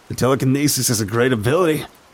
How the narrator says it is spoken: Wen laughed

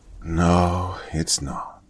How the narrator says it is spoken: Angelica sighed

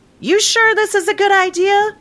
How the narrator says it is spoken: she yelled

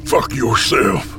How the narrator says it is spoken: I snarl

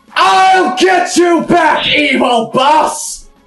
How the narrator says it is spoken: John Freeman yelled at the top of lungs

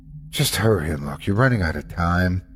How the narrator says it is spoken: The child let out a sigh before saying

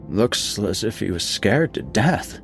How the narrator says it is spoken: said somewhat hoarsely

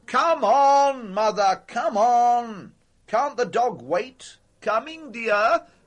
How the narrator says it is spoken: said Larry, and bellowed

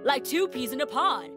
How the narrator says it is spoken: shouted the guys

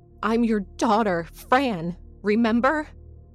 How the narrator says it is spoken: I shouted, unable to restrain my fears, my frustrations

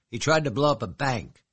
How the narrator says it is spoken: she snapped

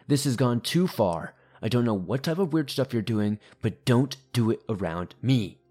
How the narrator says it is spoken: he angrily began yelling

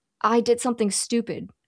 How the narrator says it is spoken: Chris says

